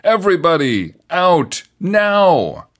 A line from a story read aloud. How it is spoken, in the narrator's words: police officers were yelling